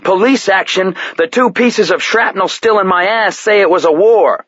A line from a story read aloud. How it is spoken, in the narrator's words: Red-faced and spitting, he yelled